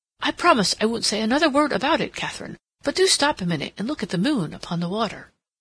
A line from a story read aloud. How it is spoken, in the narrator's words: Rodney exclaimed